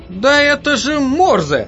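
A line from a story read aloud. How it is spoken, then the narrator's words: Sudden exclamation. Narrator (Russian): неожиданно воскликнул Джерри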